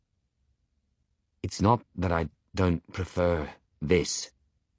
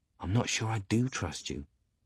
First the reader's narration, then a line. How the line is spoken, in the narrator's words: he whispers back